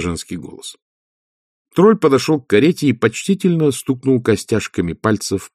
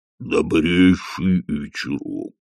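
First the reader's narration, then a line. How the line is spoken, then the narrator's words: Booming. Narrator (Russian): прогудел он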